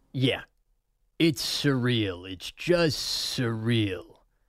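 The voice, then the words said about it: Jack Nicholson impression. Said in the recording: “That's my one word Jack Nicholson right there. One word impersonations. Done. That was Jack. That was pretty good.”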